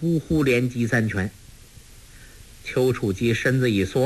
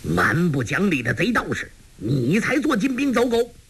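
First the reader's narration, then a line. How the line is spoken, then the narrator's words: Furious shout. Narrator (Chinese): 张阿生大怒，喝道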